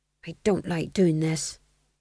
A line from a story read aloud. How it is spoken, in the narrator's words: he murmured under his breath